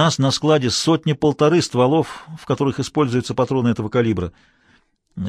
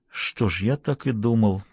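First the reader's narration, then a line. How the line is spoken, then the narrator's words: Muttered. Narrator (Russian): пробормотал Хэммонд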